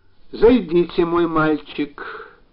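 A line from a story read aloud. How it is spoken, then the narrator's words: Tired request. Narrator (Russian): попросил утомленным голосом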